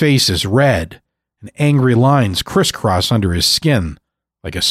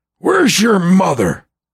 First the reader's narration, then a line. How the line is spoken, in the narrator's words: Gramps snaps